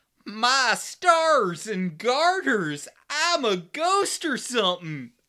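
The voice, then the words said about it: Imitation of Alyssa Milano's bad southern accent. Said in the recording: “It was Alyssa Milano's southern accent ... now I'm trying to do someone else's bad southern accent.”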